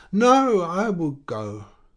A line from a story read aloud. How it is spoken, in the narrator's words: she cried with affected waywardness